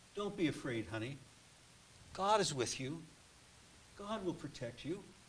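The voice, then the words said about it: Soft, gentle voice. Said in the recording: “in a soft voice”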